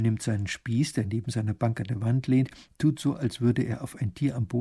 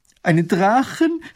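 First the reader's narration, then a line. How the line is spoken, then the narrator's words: Horrified scream. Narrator (German): schreit Mathilde entsetzt auf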